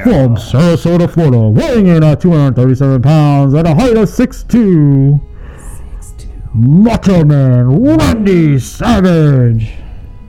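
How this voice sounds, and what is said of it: Bad wrestling ring announcer impression. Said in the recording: “my really bad impression.”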